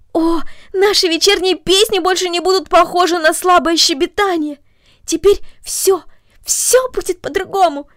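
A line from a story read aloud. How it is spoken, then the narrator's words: Exclaimed. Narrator (Russian): воскликнула она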